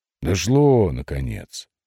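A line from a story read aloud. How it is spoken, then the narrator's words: Sigh. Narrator (Russian): вздохнул Маридит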